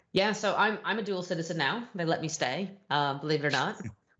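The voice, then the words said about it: American accent. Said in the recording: “from your accent, obviously not from the UK originally... you're basically from the US”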